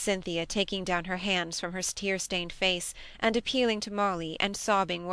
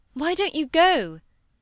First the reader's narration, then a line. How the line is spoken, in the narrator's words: said Molly impatiently